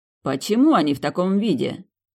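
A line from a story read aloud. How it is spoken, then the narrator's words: Menacing repetition. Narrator (Russian): грозно повторил Айн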